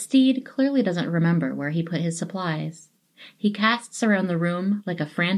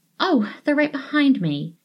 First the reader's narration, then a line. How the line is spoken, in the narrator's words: exclaims